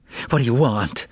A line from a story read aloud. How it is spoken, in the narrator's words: Geneva whispered, both defiant and terrified